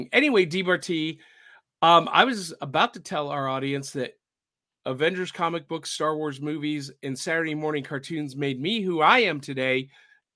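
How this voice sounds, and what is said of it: Slightly raspy voice. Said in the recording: “My voice is still a little bit raspy,”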